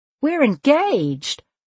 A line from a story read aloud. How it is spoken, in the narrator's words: Emerson squealed